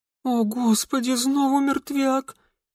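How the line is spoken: Barely audible moan. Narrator (Russian): Едва слышно простонали

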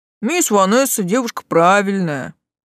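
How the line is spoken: Deep booming voice. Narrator (Russian): басил лавочник

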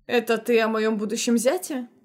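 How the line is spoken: Young man chuckling. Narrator (Russian): хохотнул молодой Латимер

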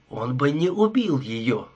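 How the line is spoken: Plain. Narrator (Russian): сказал Свитинг

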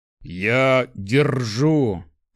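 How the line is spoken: Hissed through clenched teeth. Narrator (Russian): прошипел, стиснув зубы

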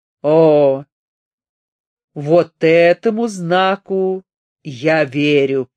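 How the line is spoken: Deep booming voice. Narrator (Russian): пробасил орган

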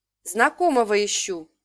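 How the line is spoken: Plain. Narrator (Russian): сказала я

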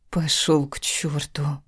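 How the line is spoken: Emotional whisper. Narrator (Russian): с чувством прошептала я

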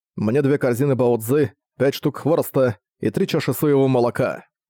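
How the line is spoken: Loud. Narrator (Russian): Цзуи громко сказав

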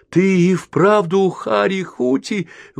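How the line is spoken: Exclamation. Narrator (Russian): воскликнул он

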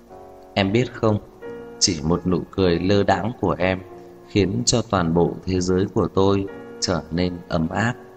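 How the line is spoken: Tipsy, low, seductive murmur. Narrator (Vietnamese): Thanh âm mang theo vài phần men say, vài phần trầm thấp mê hoặc, lẩm bẩm

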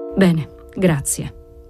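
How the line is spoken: Murmured. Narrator (Italian): mormorò

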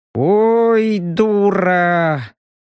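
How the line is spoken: Resigned drawl. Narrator (Russian): обреченно протянул Робин

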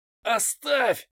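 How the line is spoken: Hoarse rasp. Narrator (Russian): прохрипел Рубин

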